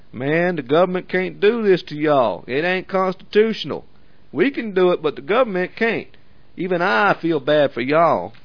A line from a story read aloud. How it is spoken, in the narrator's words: said in a Klan voice